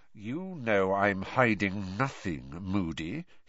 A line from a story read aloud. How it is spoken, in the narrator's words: said in a soft and dangerous voice